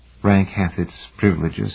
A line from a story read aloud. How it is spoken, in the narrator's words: said softly